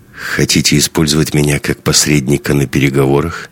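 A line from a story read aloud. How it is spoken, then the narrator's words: Wry snort. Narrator (Russian): хмыкнул Андрей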